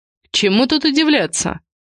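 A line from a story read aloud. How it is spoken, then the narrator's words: Scoffing grunt. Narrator (Russian): Он хмыкнул и ощутил, как внутри стал ядом распространяться гнев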